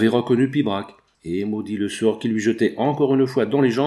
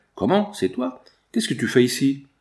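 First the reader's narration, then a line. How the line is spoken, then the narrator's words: Surprised exclamation. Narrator (French): s'écria, quand il le vit de près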